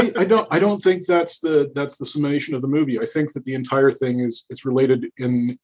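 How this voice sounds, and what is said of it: Usual voice. Nothing is said of it.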